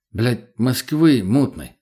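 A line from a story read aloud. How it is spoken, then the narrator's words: Irritated curt remark. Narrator (Russian): раздраженно бросил я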